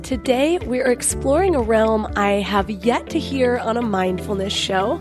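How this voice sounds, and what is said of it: Sick, slightly off voice. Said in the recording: “I've been sick all week, so my voice is a little off... sick voice”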